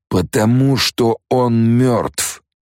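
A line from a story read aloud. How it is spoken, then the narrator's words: Booming reply. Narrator (Russian): прогремел в ответ проповедник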